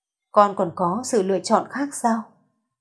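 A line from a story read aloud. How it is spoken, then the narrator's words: Old woman sighing. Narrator (Vietnamese): Vân lão phu nhân thở dài một tiếng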